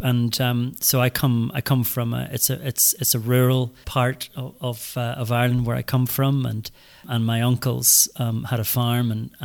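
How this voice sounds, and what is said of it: Northern Irish accent. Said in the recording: “Hopefully the accent tells you I'm from the north of Ireland”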